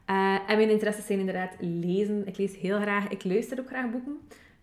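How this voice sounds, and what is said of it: West Flemish Dutch accent. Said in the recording (Dutch): “Ook in de West-Vlaanders hoor je ongetwijfeld ook aan mijn accent.”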